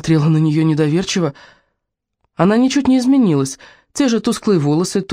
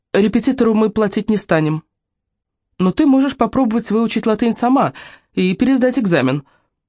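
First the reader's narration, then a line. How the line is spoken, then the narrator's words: Sharp tone, in dialect. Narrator (Russian): Своим обычным резким тоном она сказала на диалекте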